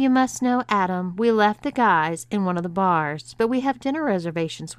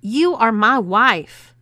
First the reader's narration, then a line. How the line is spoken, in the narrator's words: exclaimed Bob